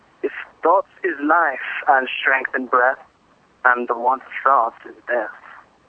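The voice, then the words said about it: Lovely British-sounding accent. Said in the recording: “That was a lovely accent ... you've got to be from the south area of Wales ... it sounds to me more like Buckingham.”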